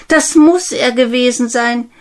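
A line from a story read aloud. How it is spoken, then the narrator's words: Called out. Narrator (German): rief Namaruna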